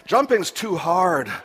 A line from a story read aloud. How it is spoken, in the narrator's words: Snaffy panted